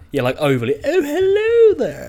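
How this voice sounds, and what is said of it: Exaggerated posh accent. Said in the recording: “overly posh accents”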